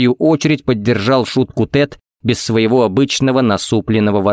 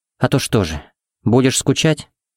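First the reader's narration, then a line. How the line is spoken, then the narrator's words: Good-natured purr. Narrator (Russian): Удивительно добродушно промурлыкала Пепси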